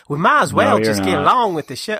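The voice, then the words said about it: Poor imitation of another person's accent. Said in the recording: “I'm not doing the accent right ... I'm doing it terrible.”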